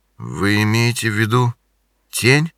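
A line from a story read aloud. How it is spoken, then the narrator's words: Strained, forced out. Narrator (Russian): выдавил Винсент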